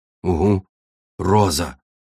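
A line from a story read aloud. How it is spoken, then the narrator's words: Surprised grumble. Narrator (Russian): буркнул удивленно пояснил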